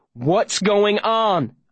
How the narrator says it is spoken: I shout at him

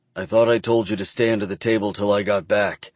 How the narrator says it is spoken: I growl, pissed off about what's going on in my head, and pissed off that Hayden can't do the one thing I asked

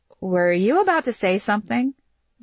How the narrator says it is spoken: Gia asked

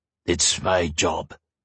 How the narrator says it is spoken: the guardsman replied gruffly

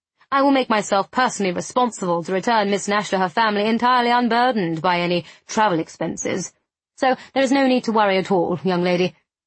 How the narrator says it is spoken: said smoothly

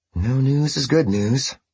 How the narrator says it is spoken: she breathed to herself

